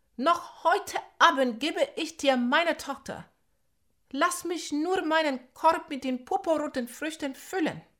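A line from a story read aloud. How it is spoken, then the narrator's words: Calling out. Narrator (German): rief Nandi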